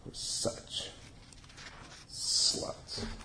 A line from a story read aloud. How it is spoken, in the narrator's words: whispered